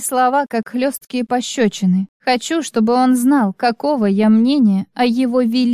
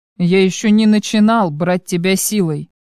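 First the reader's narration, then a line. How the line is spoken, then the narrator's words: Cold clipped words. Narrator (Russian): холодно чеканит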